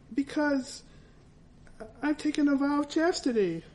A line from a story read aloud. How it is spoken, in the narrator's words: I blurted out